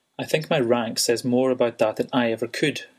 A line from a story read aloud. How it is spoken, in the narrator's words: he replied, smiling coldly at Ren